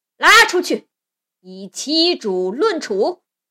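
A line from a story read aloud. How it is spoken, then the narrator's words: Angry roar. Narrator (Chinese): 禅皇大怒，对武将罗烂、糟糠吼道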